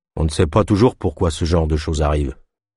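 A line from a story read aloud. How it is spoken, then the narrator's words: Fatalistic statement by a guard. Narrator (French): affirma le gardien d'un ton fataliste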